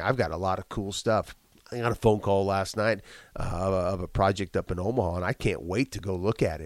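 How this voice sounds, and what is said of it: Rough, congested, plugged-up voice. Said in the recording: “you sound rough because I got a bit of a cough in my chest and I got I'm plugged up. Maybe this is a sexy voice. ... you don't sound good”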